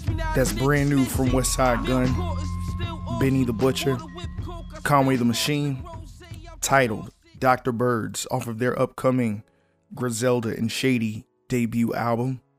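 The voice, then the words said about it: Voice still partly lost, not fully recovered. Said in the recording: “lost my voice, and it's slowly coming back ... it's still not 100%. I'd, I'd say it's 70, 75% back to its uh its regular state.”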